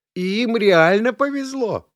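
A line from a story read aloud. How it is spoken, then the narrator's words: Excited exclamation. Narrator (Russian): азартно воскликнул Дмитрий Палыч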